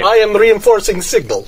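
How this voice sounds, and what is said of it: Put-on Russian accent. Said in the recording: “I'm trying to do shippy with a Russian accent”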